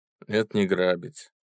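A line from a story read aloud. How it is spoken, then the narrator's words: Calm. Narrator (Russian): спокойно ответил пойманный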